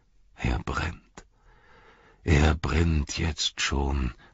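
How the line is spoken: Sad. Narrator (German): sagte er traurig

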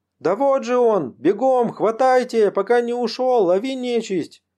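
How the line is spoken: Distant full-throated shout. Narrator (Russian): Закричала во все горло горбатая Дуняша, что стояла вдали

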